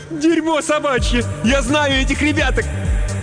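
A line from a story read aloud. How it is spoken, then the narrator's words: Shout. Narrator (Russian): Гресса прокричала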